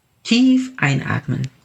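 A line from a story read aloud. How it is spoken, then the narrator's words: Plain. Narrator (German): sagte Dr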